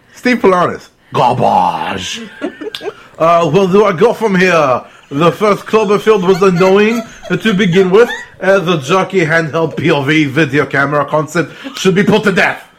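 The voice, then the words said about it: Put-on French accent. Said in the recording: “Read the rest of it in a French accent.”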